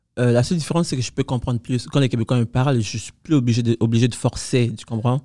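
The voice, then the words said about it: Different French accent and speaking pace. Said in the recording (French): “j'ai un accent qui est différent. Mon débit aussi est différent”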